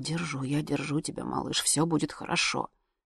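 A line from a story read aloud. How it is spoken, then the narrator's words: Mumbling. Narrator (Russian): Сережа забормотал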